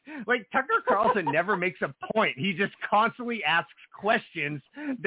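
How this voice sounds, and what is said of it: Usual voice. Nothing is said of it.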